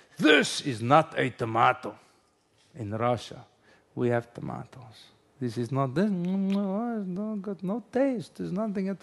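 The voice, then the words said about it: Bad mixed Russian-style put-on accent. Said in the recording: “forgive my very bad Russian, German, Jewish, throwing a bit of Indian accent”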